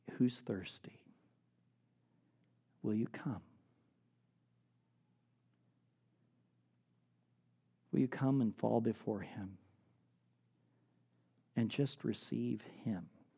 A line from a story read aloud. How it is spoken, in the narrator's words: the hillbilly from Nazareth cries out